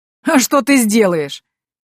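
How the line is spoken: Hoarse laughter. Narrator (Russian): хрипло засмеялся граф

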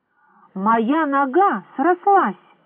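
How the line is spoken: Surprised exclamation. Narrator (Russian): удивленно воскликнул он

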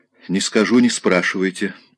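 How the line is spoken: Dry. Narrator (Russian): сухо сказала она

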